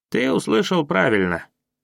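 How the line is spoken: Rough speech. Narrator (Russian): сказал грубо

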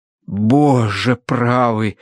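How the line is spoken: Breathless exclamation. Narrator (Russian): выдохнул преподобный мистер Арбитидж

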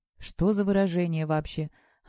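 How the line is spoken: Sighing. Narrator (Russian): Она вздохнула

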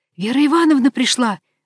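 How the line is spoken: Loud breathy whisper. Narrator (Russian): выдохнула громким шепотом

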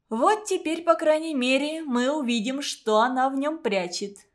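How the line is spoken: Laughing. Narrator (Russian): засмеялась Гелька

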